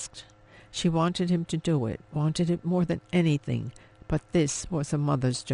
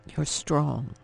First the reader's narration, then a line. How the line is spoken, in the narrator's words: he murmured